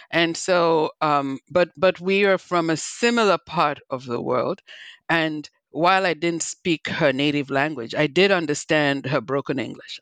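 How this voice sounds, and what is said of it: Nigerian accent. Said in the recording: “I'm originally from Nigeria, not Liberia, but as you can hear, I have my own accent.”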